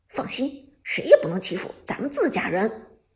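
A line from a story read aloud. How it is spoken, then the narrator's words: Smiling, quiet. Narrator (Chinese): 陈烨则笑着小声道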